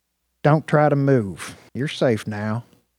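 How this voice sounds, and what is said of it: Calm, even southern accent. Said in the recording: “The voice was calm and even, a southern accent.”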